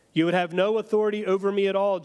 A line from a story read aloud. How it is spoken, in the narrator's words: Jesus answered him